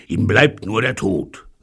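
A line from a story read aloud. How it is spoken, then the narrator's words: Sighing. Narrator (German): seufzte Pycraft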